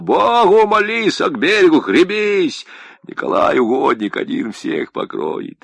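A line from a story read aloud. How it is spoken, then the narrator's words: Roaring. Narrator (Russian): Арсений взревел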